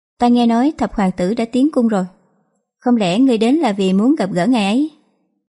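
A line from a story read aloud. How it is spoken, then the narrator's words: Cheerful laughing. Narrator (Vietnamese): Giang Tiểu Lâu lại vui vẻ bật cười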